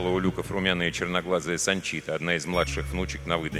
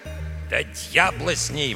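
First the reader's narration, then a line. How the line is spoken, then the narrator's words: Grumbling. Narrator (Russian): ворчал из пилотской кабины Эдуардо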